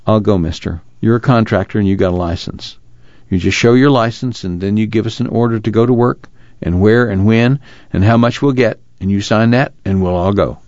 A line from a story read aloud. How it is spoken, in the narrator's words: He said quietly